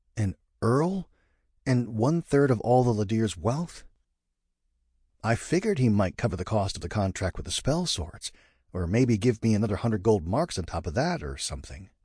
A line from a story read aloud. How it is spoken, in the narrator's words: said in a bewildered tone